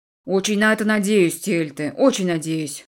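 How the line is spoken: Grumbled. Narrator (Russian): пробурчал он

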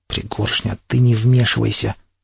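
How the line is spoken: Tense hiss. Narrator (Russian): напряженно прошипел я

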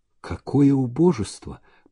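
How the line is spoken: Whispered. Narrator (Russian): прошептал он

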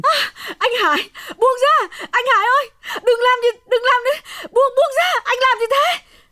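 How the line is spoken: Screaming. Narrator (Vietnamese): Hồng gào thét lên

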